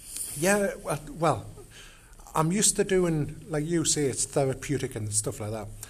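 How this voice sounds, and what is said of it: Geordie English accent. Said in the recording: “I noticed you had an accent ... the accent you're hearing is Geordie”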